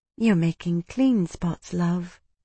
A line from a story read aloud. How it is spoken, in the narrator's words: the woman said, her voice gentle